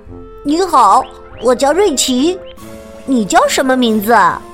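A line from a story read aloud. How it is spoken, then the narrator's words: Quiet, soft voice. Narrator (Chinese): 斑点兔子小声的说道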